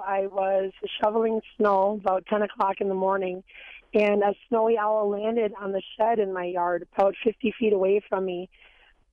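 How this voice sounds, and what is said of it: Raspy voice. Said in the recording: “I apologize for my raspy voice this morning”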